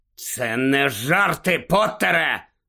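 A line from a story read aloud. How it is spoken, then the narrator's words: Growl. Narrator (Ukrainian): загарчав Скрімджер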